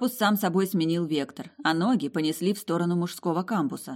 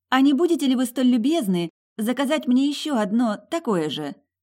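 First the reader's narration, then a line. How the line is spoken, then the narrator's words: Sweet angelic voice. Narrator (Russian): Ангельским голоском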